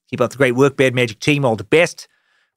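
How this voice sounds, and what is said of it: Put-on Australian accent, poorly done. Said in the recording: “I can't keep the accent up anymore. It's probably doing terribly. ... Just doing a lame Australian”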